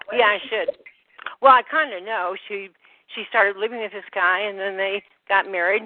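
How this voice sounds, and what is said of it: Out of breath speech. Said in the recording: “If I'm sounding a little out of breath, it's because I'm moving all my bedding in ... So that's why I'm sounding a little out of breath.”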